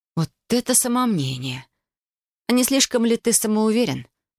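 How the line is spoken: Hissed through teeth. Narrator (Russian): процедила я

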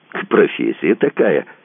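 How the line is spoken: Cheerful. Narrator (Russian): сказал Кацуба весело

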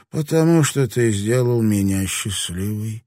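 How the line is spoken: Happy sigh. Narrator (Russian): вздохнула она, радуясь

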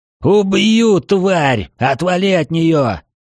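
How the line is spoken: Roar. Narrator (Russian): взревел маэстро

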